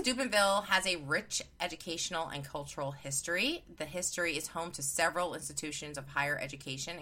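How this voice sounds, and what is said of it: New York accent. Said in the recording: “It's my New York accent.”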